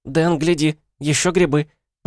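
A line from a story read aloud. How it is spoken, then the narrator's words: Squeaky. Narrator (Russian): пропищала Шпора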